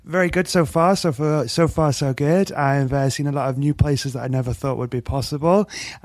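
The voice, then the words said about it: English accent. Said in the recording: “obviously you can tell by the accent I'm English”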